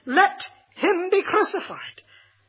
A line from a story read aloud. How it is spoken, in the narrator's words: they cried out the more, saying